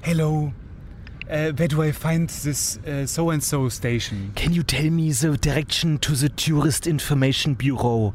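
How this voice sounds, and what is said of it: English with strong German accent. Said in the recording (German): “Eigentlich müsste man deutscher reden, als man es normalerweise macht ... einen unfassbar starken Akzent ... den Akzent nicht versuchst zu überspielen”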